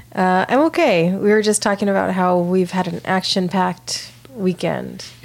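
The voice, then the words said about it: Slightly raspy voice. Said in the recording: “I have some allergies, so my voice is a little raspy.”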